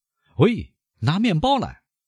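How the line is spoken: Shouting. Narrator (Chinese): 他喊道

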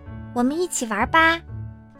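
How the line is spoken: Quiet speech. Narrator (Chinese): 小狐狸……小声地说

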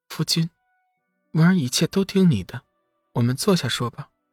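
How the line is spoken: Soft, gentle. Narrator (Chinese): 文儿柔声道

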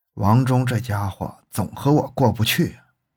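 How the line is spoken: Muttering. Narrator (Chinese): 张新发嘀咕说

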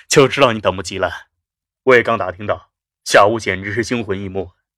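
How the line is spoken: Laughing. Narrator (Chinese): 肖斌笑道

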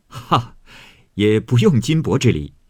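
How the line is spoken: Laughing. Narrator (Chinese): 贾琏笑道

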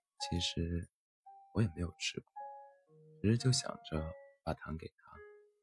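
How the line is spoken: Shy murmuring. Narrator (Chinese): 小白兔喃喃地说

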